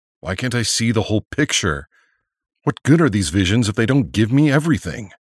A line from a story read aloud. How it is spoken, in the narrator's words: exclaimed Nelson, hoping his frustration might trigger another vision